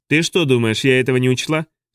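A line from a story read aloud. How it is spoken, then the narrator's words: Snorting. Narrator (Russian): Суджик фыркнула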